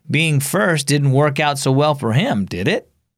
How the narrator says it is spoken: Rachel laughed

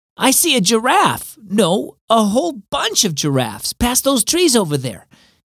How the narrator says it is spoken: Evan beamed triumphantly

